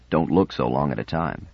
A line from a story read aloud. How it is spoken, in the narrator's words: murmured in his ear